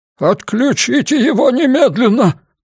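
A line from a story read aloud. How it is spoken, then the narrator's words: Trembling commanding voice. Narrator (Russian): приказал он дрожащим голосом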